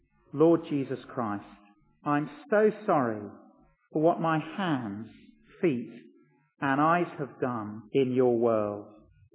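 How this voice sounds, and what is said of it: Slow deliberate speech. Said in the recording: “say it slowly”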